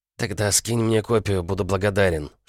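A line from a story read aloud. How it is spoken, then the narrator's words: Whisper. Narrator (Russian): шепнул Сеп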